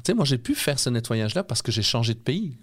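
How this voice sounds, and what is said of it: European Belgian French accent. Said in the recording (French): “Vous l'entendez à mon accent, j'ai un accent d'Europe, je suis né en Belgique.”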